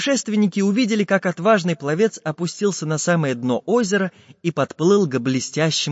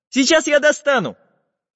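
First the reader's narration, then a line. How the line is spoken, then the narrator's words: Shouting. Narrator (Russian): Крикнул Чижик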